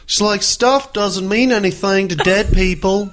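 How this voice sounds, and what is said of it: Imitates another person's accent. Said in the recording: “Is that her accent? ... That's a pretty good impression. I almost thought she was here right now ... How's that accent go?”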